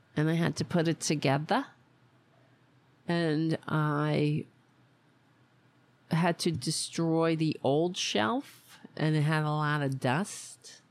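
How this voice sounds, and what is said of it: Put-on Staten Island accent. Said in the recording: “Why am I talking like this? Is like a Staten Island accent.”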